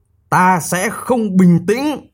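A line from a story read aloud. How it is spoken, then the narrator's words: Angry. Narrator (Vietnamese): ông ta giận dữ nói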